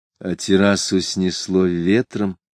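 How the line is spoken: Plain. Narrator (Russian): спросил Джоул

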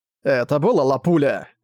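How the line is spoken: Thundering boom. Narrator (Russian): прогремел взрыв

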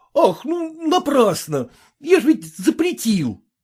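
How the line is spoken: Exclamation. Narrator (Russian): воскликнул Самоплясов

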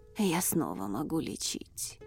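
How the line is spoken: Old man's breathy exhale. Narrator (Russian): выдохнул старец

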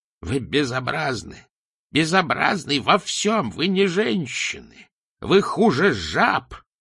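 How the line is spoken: Cracked little voice. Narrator (Russian): приговаривала она надтреснутым голоском

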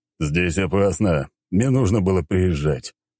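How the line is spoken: Man grumbling. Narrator (Russian): проворчал мужчина

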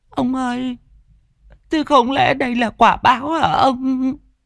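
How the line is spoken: Self-pitying whimper. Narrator (Vietnamese): tủi cho mình, mụ mếu máo

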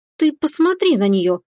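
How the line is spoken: Indignant exclamation. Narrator (Russian): воскликнула возмущенно Стефани

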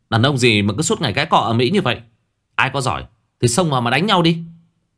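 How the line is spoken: Angry yelling. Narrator (Vietnamese): Số 4 quát tháo

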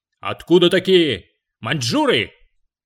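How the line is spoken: Loud, big man. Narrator (Russian): какой-то верзила рыжий и здоровенный, и громко так это

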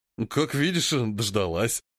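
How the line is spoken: Man laughing. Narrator (Russian): рассмеялся мужчина

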